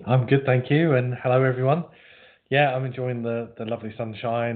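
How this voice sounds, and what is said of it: Pleasant, broadcast-style speaking voice. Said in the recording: “You've got a good radio voice”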